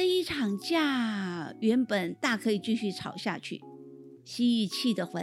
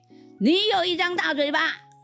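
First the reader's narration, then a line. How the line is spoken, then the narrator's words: Roaring retort. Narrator (Chinese): 蛇吼了回去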